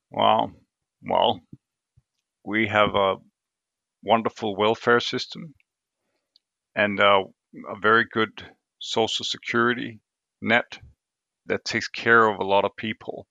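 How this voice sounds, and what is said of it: Non-native English accent. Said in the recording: “you're not from the United States. You have an accent. You live in Denmark.”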